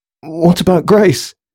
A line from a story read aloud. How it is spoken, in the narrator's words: gasped Thomas in panic